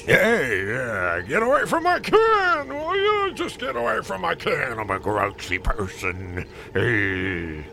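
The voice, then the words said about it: Gruff grouchy puppet character voice. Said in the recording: “worst Oscar the Grouch impression ... Sort of like W.C. Fields meets Oscar the Grouch”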